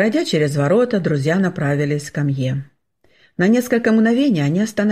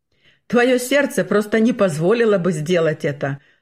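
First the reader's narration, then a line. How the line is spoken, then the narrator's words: Laughing. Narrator (Russian): рассмеялся Бернгард Фаллер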